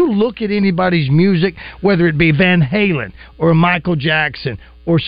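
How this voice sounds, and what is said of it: Usual voice. Nothing is said of it.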